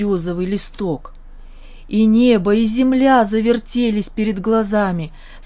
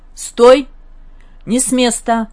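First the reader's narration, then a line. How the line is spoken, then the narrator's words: Harsh hoarse bark from above. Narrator (Russian): гаркнул откуда-то сверху хриплый и жесткий голос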